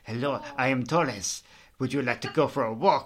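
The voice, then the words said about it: Really bad Spanish accent. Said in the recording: “Spanish accent sometimes, or a really bad Spanish accent”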